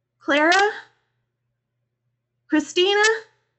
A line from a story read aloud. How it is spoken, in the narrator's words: I asked nervously